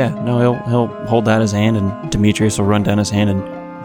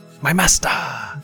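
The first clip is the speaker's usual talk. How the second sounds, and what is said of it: Character voice with Jamaican accent. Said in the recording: “I gave him a Jamaican accent... Jamaican accent.”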